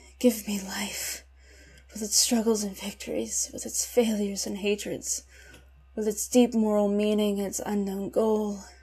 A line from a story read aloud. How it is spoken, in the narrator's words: dead tired, faint, for want of food, but murmuring indomitably